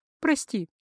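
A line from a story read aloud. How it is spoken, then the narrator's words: Fairly calm. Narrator (Russian): более-менее спокойно произнесла она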